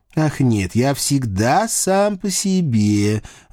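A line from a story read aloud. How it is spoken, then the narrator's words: Lazy bored drawl. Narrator (Russian): вальяжно протянул Льюи со скучающим видом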